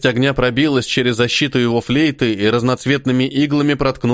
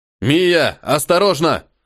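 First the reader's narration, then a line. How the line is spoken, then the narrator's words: Sudden alarmed shout. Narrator (Russian): Вдруг закричал, сообразив, что происходит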